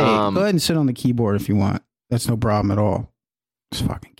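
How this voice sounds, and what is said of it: Usual voice. Nothing is said of it.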